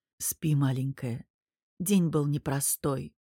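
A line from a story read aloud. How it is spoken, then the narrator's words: Whisper. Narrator (Russian): прошептал Мирон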